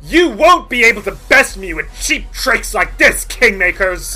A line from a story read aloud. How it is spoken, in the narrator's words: snarls and says